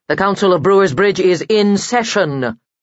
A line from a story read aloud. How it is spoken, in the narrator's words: said loudly